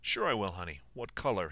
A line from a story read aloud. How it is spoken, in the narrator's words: he replied